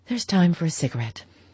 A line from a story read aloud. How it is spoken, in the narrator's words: sighed out